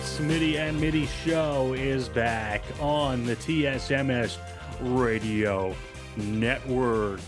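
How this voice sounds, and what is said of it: Radio announcer voice. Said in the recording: “That was my announcer voice.”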